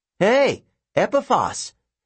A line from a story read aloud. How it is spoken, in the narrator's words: he shouted down